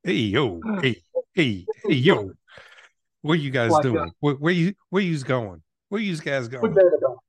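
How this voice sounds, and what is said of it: Put-on New York accent. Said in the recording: “let me hear your best New York talk”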